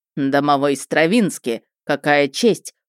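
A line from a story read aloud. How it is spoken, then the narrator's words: Growl. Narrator (Russian): прорычал Чандлер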